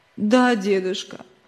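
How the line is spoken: Sobbing child. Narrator (Russian): всхлипывая ответил мальчик

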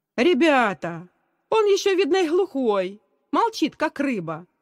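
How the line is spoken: Cheerful shout. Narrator (Russian): весело крикнул Давид, один из лидеров класса

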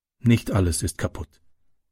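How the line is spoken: Plain. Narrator (German): sagte sie

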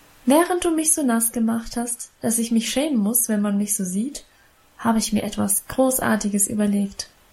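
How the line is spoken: Plain. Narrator (German): sagte sie

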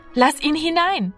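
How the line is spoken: Called out. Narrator (German): rief Martina

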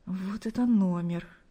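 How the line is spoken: Embarrassed whisper to oneself. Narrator (Russian): Смущенно улыбаясь, прошептал он себе

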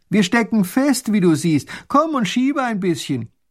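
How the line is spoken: Calling from carriage window. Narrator (German): Der kleine Großherzog streckt den Kopf aus dem Kutschenfenster und ruft

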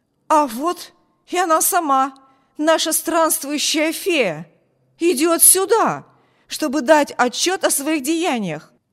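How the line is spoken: Exclamation. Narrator (Russian): Воскликнул он

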